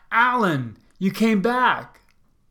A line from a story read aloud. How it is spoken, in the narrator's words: little Tara greeted me shouting